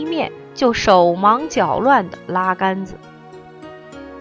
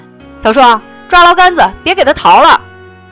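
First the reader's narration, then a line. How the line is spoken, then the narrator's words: Tense shout. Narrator (Chinese): 他紧张的大喊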